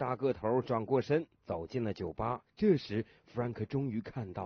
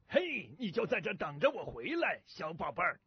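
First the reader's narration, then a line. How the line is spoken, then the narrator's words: Big man, loud. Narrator (Chinese): 那个大个头大声地对牛说道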